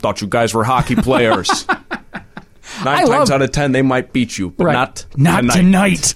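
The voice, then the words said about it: Herb Brooks impression with accent. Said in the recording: “give it to us in a Herb Brooks ... Herb Brooks speech ... I'll do the accent.”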